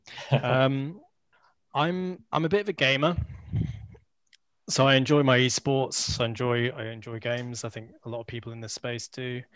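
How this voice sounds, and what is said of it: British accent. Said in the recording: “I live in the United Kingdom... You probably tell from the accent anyway there.”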